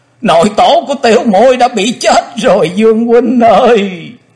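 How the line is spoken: Wailing, crying woman. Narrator (Vietnamese): Quỳnh Dao đang khóc, nàng thê thảm gào to

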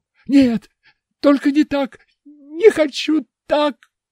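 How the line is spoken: Sobbing. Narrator (Russian): зарыдал

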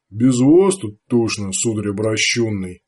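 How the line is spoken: Grumbling. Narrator (Russian): проворчал Артаг

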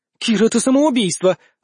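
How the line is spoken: Exclaiming. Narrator (Russian): воскликнула Вика

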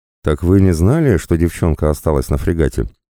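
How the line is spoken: Laughing. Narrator (Russian): рассмеялся командор Ричардсон, видя мою растерянность

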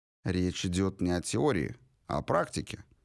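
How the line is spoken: Calm reply. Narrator (Russian): спокойно ответил мистер Понт

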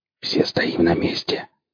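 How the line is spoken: Whispered. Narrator (Russian): прошептал Борланд

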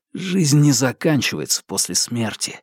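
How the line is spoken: Snorting. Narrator (Russian): хмыкнул он

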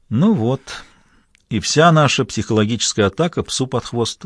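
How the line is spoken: Sad reply. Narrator (Russian): грустно ответил Тони

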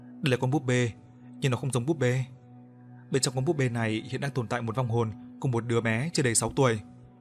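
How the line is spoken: Soft speech. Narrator (Vietnamese): Quân khẽ nói

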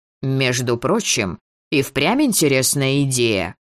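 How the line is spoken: Sudden creaky voice. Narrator (Russian): неожиданно проскрипел Мор

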